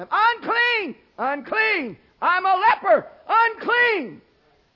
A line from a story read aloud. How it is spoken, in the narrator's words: put their hand over their mouth, and they were to scream at anyone approaching them